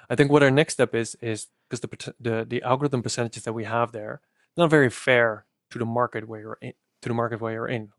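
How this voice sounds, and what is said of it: Dutch accent in English. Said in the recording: “I'm as Dutch as can be. So my accent caters to a different niche than yours.”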